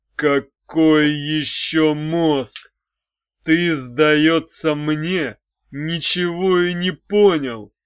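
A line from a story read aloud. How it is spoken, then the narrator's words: Through gritted teeth. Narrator (Russian): процедил Арей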